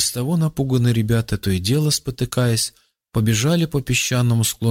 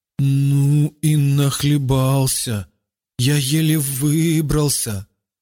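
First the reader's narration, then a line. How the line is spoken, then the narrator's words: Stammering. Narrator (Russian): Заикаясь, он проговорил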